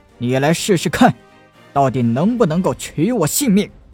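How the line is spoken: Roaring. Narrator (Chinese): 陈南大吼道

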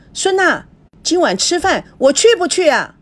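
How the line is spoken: Loud calling out. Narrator (Chinese): 赵熙不觉大声的叫着

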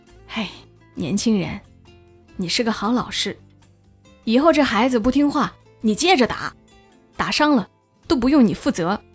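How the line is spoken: Sighing. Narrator (Chinese): 男生的父亲……叹了口气对大伟说

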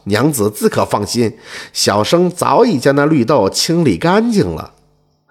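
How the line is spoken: Chuckling. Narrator (Chinese): 蛇仙呵呵一笑，说道

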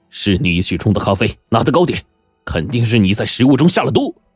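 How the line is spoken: Angry roar. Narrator (Chinese): 古尔逊怒吼道

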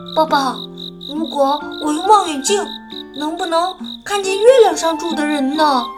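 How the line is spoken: Quiet question. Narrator (Chinese): 我小声地问

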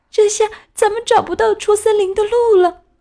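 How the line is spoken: Frightened, crying. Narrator (Chinese): 格莱特害怕的哭了起来，说

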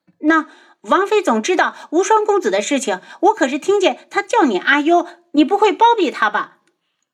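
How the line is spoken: Angry mocking. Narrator (Chinese): 楚清瑶气愤不已，讥笑道

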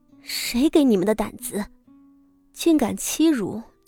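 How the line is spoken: Furious, through gritted teeth. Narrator (Chinese): 傅锦仪……用一种咬牙切齿的目光……道

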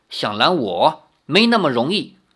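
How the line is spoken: Cold. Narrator (Chinese): 那女子 冷冷地说

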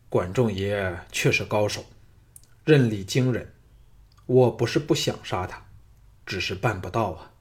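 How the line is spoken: Sighing. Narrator (Chinese): 项少龙叹了一口气说

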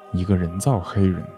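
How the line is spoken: Low voice. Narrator (Chinese): 海德先生低声说

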